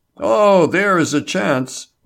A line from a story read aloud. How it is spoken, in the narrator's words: Label exclaimed